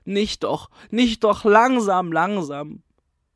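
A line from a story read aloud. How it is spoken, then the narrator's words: Roaring. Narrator (German): brüllt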